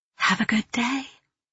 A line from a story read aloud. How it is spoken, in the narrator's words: whisper